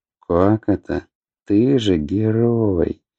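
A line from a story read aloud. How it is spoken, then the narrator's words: Praising. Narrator (Russian): похвалил его Аобран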